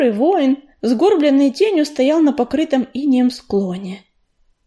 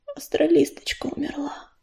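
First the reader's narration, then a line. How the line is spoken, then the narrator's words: Whispering. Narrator (Russian): прошептала тростинка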